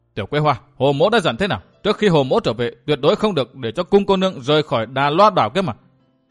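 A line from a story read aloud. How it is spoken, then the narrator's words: Angry. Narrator (Vietnamese): Phí Thiên Cửu tức giận nói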